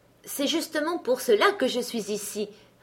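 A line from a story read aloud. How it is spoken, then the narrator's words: Plain. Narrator (French): répondit-il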